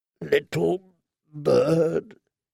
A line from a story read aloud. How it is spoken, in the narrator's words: he said once more, his voice raw and harsh, as steel on stone